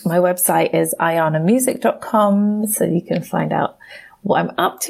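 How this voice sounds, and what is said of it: English accent. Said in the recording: “I always love hearing an English accent.”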